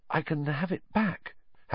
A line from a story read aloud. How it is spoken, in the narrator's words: Harry said weakly